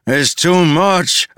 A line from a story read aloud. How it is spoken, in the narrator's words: a man cried